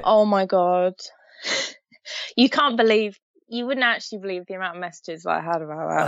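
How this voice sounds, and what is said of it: British accent. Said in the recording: “you have a British accent, which is always great to my ears”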